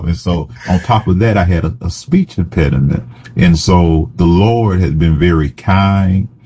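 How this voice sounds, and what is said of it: Southern accent. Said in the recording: “my accent, my Southern accent”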